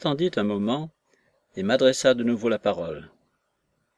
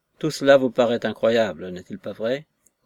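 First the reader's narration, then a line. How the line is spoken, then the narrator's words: Mocking tone. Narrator (French): disait-il d'un ton railleur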